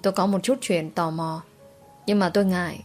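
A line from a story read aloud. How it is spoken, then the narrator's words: Quiet. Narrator (Vietnamese): Tôi nhỏ giọng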